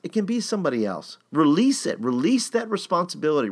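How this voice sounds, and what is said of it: Impassioned, emotional delivery. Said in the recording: “in my impassioned voice.”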